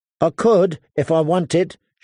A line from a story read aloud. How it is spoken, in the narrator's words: she snapped at him